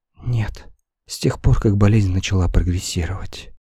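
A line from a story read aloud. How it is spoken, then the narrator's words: Sad. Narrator (Russian): ответила Нэнси грустно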